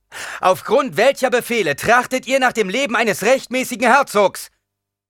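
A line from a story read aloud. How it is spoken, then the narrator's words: Calling out across. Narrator (German): rief Paul zu den Überlebenden hinüber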